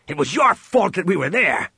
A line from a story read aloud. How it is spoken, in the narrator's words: Han growled at him